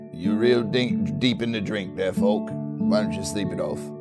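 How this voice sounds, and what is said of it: Character voice with an unfamiliar accent. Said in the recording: “what is going on with your accent there, man? ... you used to sound just like me.”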